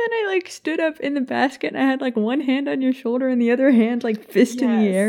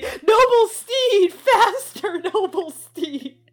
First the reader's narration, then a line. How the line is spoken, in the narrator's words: started yelling at me and saying